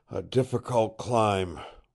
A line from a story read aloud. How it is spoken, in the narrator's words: wheezed Fingers